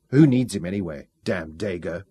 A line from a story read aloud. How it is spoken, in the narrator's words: muttered furiously